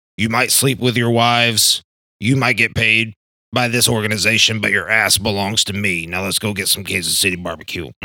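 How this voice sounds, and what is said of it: Imitates another person's voice, poorly. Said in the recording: “That was a terrible Andy Reid impression.”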